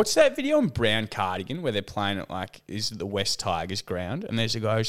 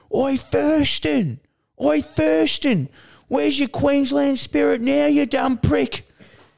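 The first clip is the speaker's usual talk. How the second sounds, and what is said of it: Drunk Australian bogan heckler. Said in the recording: “Your impression then was, you know what? It sounded great ... your typical bogan who's probably like you know had ten schooners in the Rooty Hill RSL”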